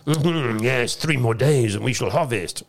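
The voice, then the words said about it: Put-on French accent. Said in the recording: “That was my French accent”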